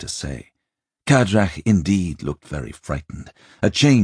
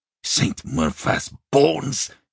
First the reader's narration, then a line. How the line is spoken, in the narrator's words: he hissed